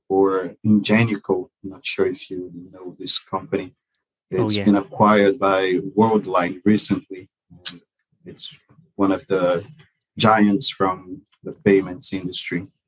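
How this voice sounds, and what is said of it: Accented English with a Scottish hint. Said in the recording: “And of all the places to end up, Scotland... I can hear it in your accent as well”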